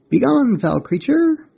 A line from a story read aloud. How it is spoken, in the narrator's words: the mantis chirped